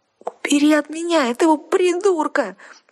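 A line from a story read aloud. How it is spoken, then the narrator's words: Moaning. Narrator (Russian): простонала она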